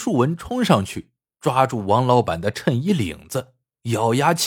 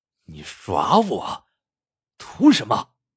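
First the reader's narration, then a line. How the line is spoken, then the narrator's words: Sneering coldly. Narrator (Chinese): 王老板冷笑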